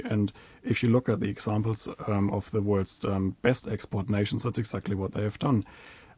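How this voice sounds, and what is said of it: German accent. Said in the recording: “as you can hear from my accent, I come from a big manufacturing country in Europe, from Germany.”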